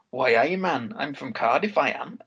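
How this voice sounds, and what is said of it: Weird attempted Welsh Cardiff accent. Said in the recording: “trying to do the Cardiff accent ... It's not really Cardiff, is it? ... that's getting you know, west of Wales at that point. It sounds a bit weird. ... Bit Geordie and Welsh”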